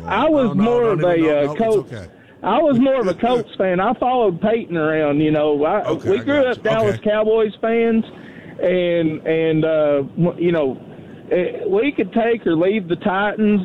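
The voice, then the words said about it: Strong regional American accent. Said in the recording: “I love your accent, by the way. I could literally listen to you all night long ... what an accent that guy's got”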